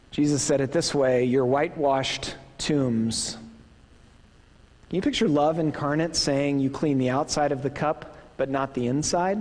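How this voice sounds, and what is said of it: Midwestern American accent. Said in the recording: “my Midwestern accent really fails me. I don't know how to pronounce differently an E or a W.”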